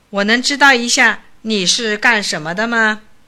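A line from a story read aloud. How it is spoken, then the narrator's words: Cold question. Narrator (Chinese): 下士冷冷地问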